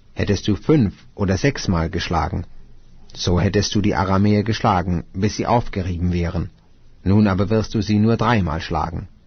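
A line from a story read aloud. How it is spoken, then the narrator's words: Angry man of God. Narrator (German): Da wurde der Mann Gottes zornig auf ihn und sprach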